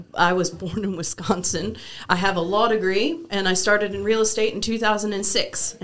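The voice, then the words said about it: Texan accent. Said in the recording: “I have a Texan accent because I lived in West Texas for 4 years, so I say things like y'all and all y'all, and that'll come out.”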